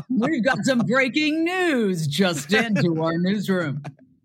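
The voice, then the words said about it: Newscaster voice. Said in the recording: “I live for the newscaster voice”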